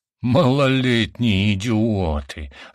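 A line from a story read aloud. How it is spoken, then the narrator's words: Growling. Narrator (Russian): зарычал мой жених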